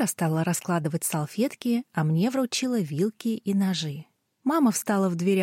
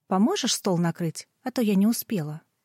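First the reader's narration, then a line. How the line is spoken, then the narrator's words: Casual, ordinary tone. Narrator (Russian): Лера спросила у меня совершенно обычным тоном, как будто мы были давно знакомы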